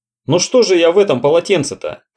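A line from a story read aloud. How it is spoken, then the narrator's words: Shouted. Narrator (Russian): крикнул Роджер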